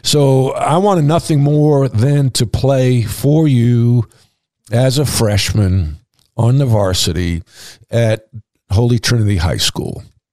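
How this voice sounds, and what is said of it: Emotional, choked-up speech. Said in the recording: “I'm getting a little emotional, actually.”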